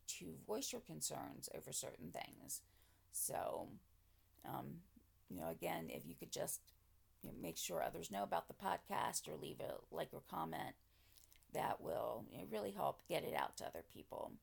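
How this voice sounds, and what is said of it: Raspy, sore-throated voice. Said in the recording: “my voice is sounding a little bit raspier... a sore throat with a raspy voice”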